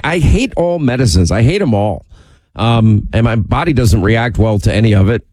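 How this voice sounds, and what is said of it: Congested, nasal voice. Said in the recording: “We hear it through your nose. ... You sound like the guest of honor at a mucus convention”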